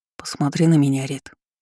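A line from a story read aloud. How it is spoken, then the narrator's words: Soft request. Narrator (Russian): мягко попросил Артём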